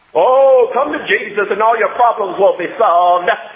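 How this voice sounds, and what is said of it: Imitates a TV preacher's voice. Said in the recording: “my preacher impersonation on TV. I thought it was pretty good.”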